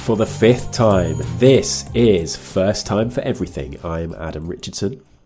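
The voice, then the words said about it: Congested voice with a cold. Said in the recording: “I have a cold. ... I'm a man with a cold.”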